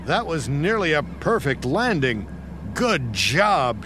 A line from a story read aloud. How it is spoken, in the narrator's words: shouted the air traffic controller